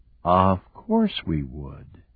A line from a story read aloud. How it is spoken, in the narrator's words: Julia said quietly